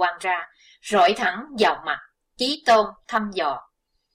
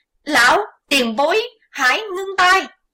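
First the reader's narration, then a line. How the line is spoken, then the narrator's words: Shrill shout. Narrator (Vietnamese): Huỳnh Giao hét lanh lảnh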